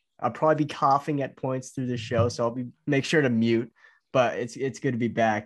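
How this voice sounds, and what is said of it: Slightly hoarse, sore voice. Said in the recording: “Voice is a little, still a little hoarse, still a little sore.”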